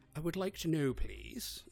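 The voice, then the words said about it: Put-on British accent. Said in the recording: “I'm a British accent.”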